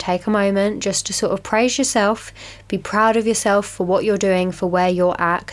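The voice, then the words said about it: Sounds ill, sore throat. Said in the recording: “hear it in my voice. If I sound a little bit ill, that would be the correct assumption ... I feel like my throat is, feels worse”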